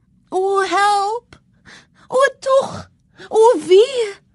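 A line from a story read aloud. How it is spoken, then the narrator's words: Screaming. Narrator (Afrikaans): haar hoor skree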